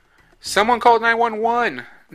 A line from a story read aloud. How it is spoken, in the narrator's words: shouted, running over to meet them in the street